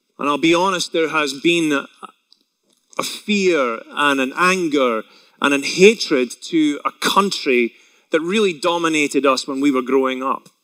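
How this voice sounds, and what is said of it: Scottish accent. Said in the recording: “I grew up in Scotland ... if you haven't been able to tell by my accent alone”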